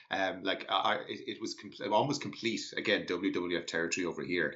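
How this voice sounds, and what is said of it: Irish accent. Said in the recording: “from my accent that I'm Irish”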